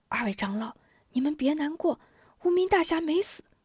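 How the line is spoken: Whispering. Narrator (Chinese): 吴中 悄声道

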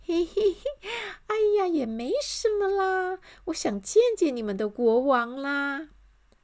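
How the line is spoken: Cheerful giggling. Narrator (Chinese): 乐观小姐笑嘻嘻地说

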